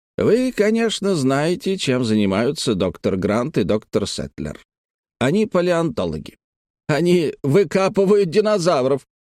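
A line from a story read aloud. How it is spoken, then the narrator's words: Loud laughter. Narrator (Russian): он захохотал, видимо, найдя в этом что-то смешное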